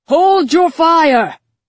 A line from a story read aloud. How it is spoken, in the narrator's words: shouted the Cheshire King from the battlements